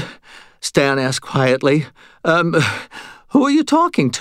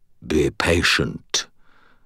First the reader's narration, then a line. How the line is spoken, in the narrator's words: purred the creature's disembodied voice